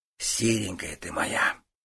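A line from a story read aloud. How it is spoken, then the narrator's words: Tender whisper. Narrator (Russian): ласково прошептал Стас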